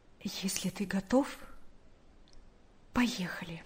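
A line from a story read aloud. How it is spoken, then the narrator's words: Quiet speech. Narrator (Russian): Наташа тихо сказала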